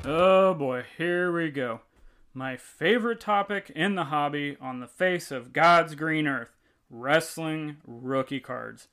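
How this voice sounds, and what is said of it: Sarcastic mock-enthusiastic delivery. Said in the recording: “clearly I'm being sarcastic.”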